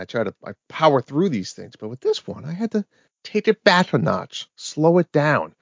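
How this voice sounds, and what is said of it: New England, Rhode Island accent. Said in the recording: “I'm usually like the speed reader with my New England and Rhode Island accent.”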